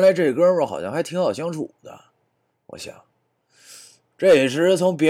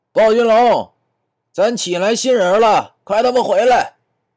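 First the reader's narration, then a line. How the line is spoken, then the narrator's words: Shouting. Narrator (Chinese): 他…喊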